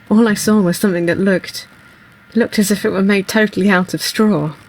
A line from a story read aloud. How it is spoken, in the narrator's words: As he comes round from being choked, he says